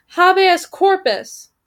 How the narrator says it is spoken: cried the first, somewhat tangentially

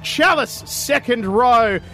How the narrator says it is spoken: I called out

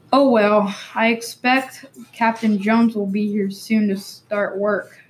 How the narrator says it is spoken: Timmy sighed

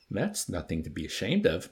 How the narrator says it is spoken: Major consoled him kindly

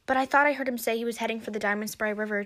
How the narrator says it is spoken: added quickly

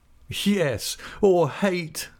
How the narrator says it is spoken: laughed Steerforth

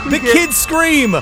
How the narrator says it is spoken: Bloody Mary screams

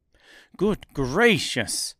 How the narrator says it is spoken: exclaimed the man

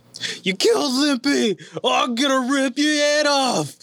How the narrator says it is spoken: The large ganger roared again, shouted

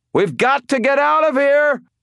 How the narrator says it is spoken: I cried

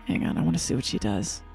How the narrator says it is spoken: Miguel kind of whisper and say

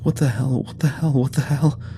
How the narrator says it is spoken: Travis was wheezing a new mantra somewhere behind us

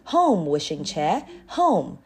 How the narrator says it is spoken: cried

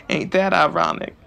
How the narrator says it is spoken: Xavier laughed heartily

